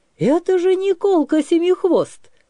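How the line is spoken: Joyful shout. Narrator (Russian): крикнул Сенька радостно

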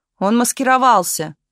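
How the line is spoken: Pale, frightened outcry. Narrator (Russian): выкрикнул побелевший партийный секретарь

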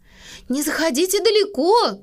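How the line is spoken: Calling after them. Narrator (Russian): крикнула мама им вдогонку

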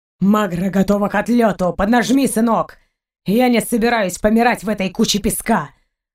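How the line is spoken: Deep booming voice. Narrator (Russian): Пробасил Гайен

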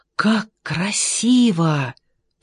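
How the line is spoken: Whisper. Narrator (Russian): прошептал Джордж

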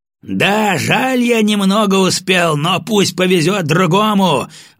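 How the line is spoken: Yelling. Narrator (Russian): заорал я

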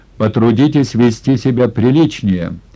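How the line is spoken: Sharp official man. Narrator (Russian): резко сказал первый секретарь крайкома

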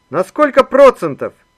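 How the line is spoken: Cheerful young man shouting. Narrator (Russian): опять выкрикнул веселый молодой человек

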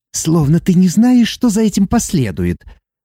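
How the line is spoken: Angry hiss. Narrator (Russian): Зло прошипело Иви

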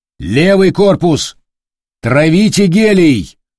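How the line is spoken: Loud command. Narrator (Russian): громко приказал капитан

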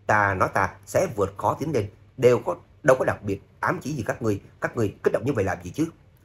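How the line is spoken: Shameless shouting back. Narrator (Vietnamese): Trác Phạm vô sĩ không nhận nợ, cũng quát lại

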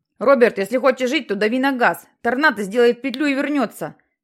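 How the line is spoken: Shout. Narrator (Russian): прокричал Джексон

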